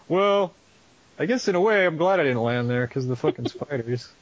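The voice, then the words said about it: Imitates another person's voice. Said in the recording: “That's how Tom Hanks talks ... a good Tom Hanks impression”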